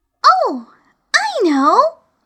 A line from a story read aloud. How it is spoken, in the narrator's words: exclaimed Alice